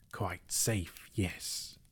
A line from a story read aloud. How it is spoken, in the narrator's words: he whispered to himself